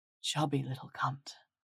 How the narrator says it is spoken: murmurs

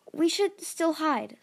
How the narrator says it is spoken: Starflight said anxiously

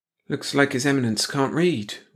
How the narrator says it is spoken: Wally muttered

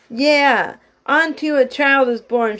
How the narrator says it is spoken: she yelled at the shepherds

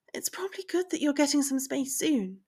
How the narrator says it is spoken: she said hesitantly

